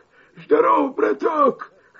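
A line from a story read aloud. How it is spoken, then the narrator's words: Hoarse wolf voice. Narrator (Russian): хрипит волк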